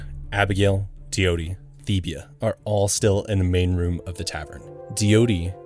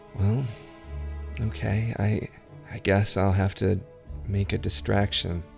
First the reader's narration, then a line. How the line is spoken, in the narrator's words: Lydia just sighs, she says